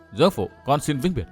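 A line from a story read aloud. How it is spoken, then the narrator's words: Soft whisper. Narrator (Vietnamese): Chàng khẽ nói thầm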